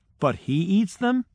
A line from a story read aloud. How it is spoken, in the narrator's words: they asked